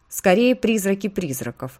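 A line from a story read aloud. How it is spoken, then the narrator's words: Plain. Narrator (Russian): ответила госпожа Ветровоск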